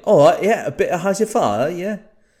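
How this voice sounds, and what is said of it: Put-on North London British accent. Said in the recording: “But that was a British accent. ... That was specifically North London”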